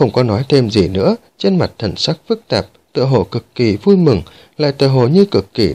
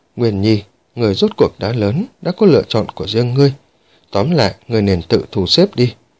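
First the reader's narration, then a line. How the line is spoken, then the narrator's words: Low, heavy, sighing. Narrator (Vietnamese): Thở dài một tiếng, Đường Vạn Lý sắc mặt âm trầm, thấp giọng nói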